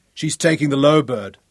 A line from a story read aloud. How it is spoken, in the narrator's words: Ralph shouted his triumph